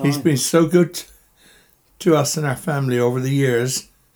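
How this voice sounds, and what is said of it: Choked-up, emotional voice. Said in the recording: “I get all choked up.”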